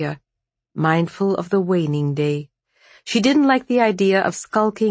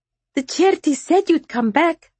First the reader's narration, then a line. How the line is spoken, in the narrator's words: Maria said happily